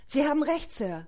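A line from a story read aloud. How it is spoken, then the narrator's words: Gasping. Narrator (German): keuchte er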